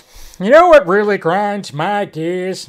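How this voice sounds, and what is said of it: Poor Peter Griffin impression. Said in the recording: “my terrible Peter Griffin impression”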